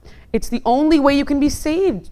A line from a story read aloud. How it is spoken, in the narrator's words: Jonah cried